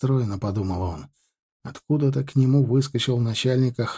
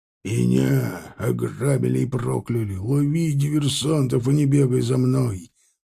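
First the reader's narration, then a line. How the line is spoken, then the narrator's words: Angry growl. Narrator (Russian): зарычал Тарглаус на него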